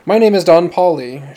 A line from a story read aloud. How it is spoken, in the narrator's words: she said breathlessly